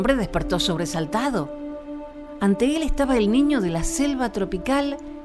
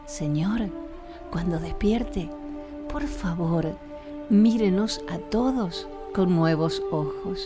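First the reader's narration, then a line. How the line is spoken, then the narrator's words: Murmured in ear. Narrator (Spanish): Le murmuró al oído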